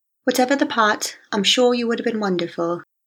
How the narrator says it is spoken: she says in her immaculate English accent

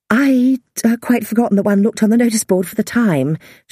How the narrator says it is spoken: she stammered

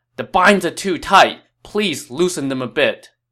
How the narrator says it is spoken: he cried out

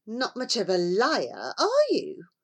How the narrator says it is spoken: Millington scoffed

